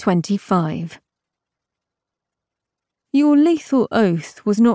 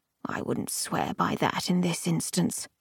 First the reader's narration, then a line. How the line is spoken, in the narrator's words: he murmured